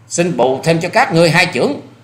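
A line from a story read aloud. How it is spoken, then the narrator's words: Loud shout. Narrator (Vietnamese): Hoa Sĩ Kiệt quát to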